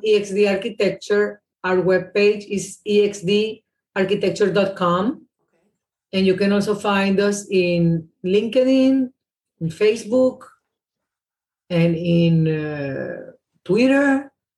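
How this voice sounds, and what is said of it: Thick Venezuelan accent. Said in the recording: “you have a very thick Venezuelan accent”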